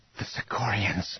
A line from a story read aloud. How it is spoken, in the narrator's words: Mara whispered